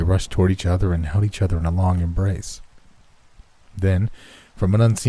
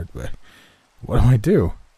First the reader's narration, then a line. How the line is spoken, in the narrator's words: stammered